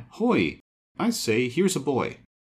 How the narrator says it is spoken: the first one had cried

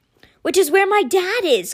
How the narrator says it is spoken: Constance cried

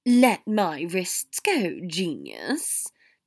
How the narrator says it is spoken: Draco hissed

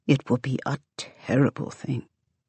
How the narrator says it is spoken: Steele says softly, nearly in her ear

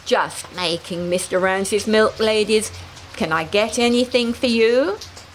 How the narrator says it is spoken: giggling

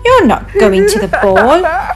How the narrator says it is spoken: laughed her cruel stepsisters and stepmother

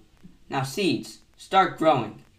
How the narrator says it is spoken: Toad said loudly

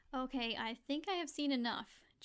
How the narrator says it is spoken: Josie said, laughing

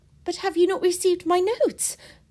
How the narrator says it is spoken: cried Marianne in the wildest anxiety

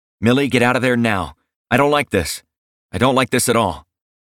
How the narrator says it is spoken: say urgently

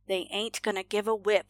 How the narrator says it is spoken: the mother muttered

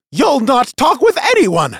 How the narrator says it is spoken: snapped Jostel

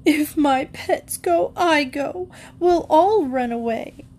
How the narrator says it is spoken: Rebecca would come out of her room bawling

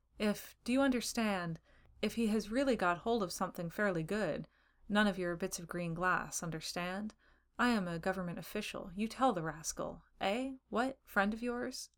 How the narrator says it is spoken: He continued wallowing calmly in the chair

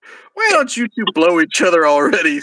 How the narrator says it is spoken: Santa laughed

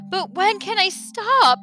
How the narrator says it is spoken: pleaded Milo

